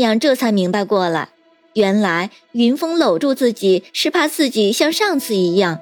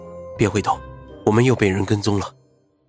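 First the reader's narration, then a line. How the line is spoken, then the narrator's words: Softly. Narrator (Chinese): 云峰轻声说道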